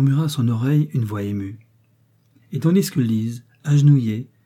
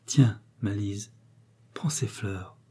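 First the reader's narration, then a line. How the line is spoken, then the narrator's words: Low voice. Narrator (French): dit-il à voix basse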